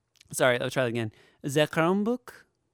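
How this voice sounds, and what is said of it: Put-on French accent. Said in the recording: “Is that my French accent?”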